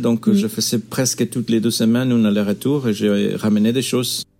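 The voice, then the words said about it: Spanish accent with Belgian French touches. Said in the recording (French): “si tu entends des choses bizarres, c'est pas seulement mon accent espagnol, mais aussi la belgitude”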